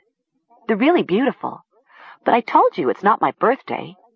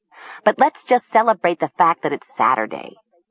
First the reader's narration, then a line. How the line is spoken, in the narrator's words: she said dryly